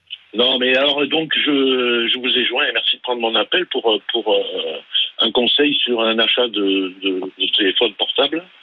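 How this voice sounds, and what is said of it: Light southern French accent. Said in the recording (French): “Qu'on entend un petit peu, légèrement, c'est votre léger accent du Sud.”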